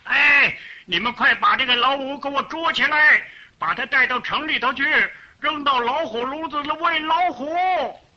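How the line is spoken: Furious official shouting. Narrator (Chinese): 这个大官儿啊，和他气急了，他就喊起来了

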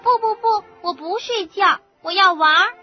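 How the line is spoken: Crying out. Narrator (Chinese): 他又躲又藏，叫着说

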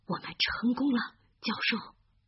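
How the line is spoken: Strained low voice. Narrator (Chinese): 哈利费了很大的力气，低声地说

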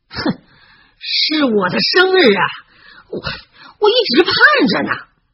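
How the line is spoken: Furious. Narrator (Chinese): 罗恩怒气冲天

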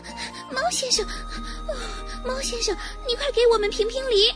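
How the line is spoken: Breathless, panting. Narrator (Chinese): 小绒鸭 气喘吁吁地说

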